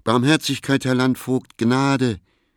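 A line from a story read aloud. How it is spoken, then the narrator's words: Called out. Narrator (German): rief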